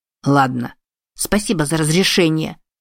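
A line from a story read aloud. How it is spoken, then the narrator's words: Snapping retort. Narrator (Russian): огрызнула Эми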